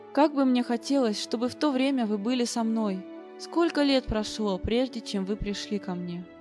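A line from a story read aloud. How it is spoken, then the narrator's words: Affectionate, concluding. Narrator (Russian): Ласково глядя на нас, он заключил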